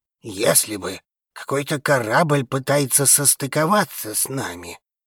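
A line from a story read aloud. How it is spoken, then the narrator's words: Grumbling old man. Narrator (Russian): Заворчал старик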